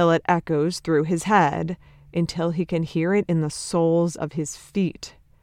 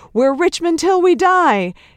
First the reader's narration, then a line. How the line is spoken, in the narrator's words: them all but screaming